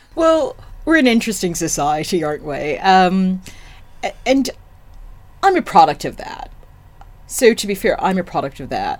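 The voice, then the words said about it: American accent. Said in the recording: “With your American accent”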